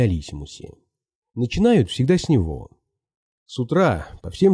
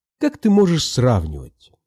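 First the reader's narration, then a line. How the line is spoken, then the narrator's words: Indignant. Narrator (Russian): сказала она возмущенно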